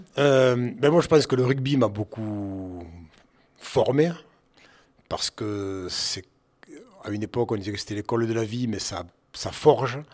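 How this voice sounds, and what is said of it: Slight regional accent. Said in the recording (French): “un petit accent”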